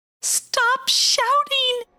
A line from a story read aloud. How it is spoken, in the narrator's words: she screamed at Wonty